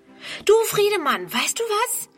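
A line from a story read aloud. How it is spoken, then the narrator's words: Calling out. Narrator (German): ruft sie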